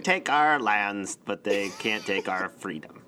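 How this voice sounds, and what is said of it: Nasal put-on Scottish accent. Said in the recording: “It's very nasally though. Do it in a Scottish accent ... That's a nasally impression of Australian Mel Gibson doing a Scottish accent.”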